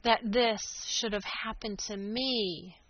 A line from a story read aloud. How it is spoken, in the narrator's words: he groaned